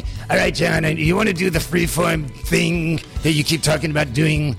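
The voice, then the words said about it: Imitates another person's voice. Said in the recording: “this is my impersonation. It might be good, it might be bad.”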